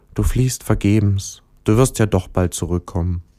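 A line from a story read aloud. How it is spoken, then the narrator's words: Sad and quiet. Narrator (German): Der Stern traurig sagte leise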